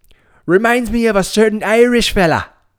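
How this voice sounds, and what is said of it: Deliberately bad put-on Irish accent. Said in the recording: “That's a terrible Irish accent.”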